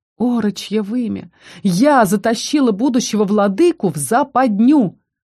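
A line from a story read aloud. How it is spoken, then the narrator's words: Wild howl. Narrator (Russian): Взвыло дико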